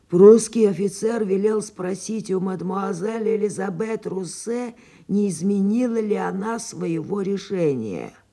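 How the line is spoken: Hoarse rasp. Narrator (Russian): господин Фолянви и прохрипел

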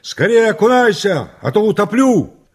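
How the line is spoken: Spluttering shout. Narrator (Russian): отфыркиваясь, закричал

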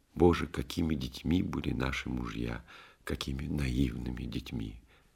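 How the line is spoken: Tearful whisper. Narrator (Russian): его жена Нина со слезами шептала

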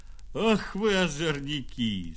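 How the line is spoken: Laughing. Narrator (Russian): смеялся богач

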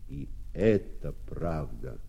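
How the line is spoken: Plain, several voices. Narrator (Russian): опять сказали кузнецы

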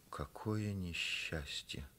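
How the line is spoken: Furious hiss, mother. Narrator (Russian): Мать, вдруг разъярившись, зашипела

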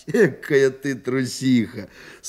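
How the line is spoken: Laughing. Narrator (Russian): смеялся он

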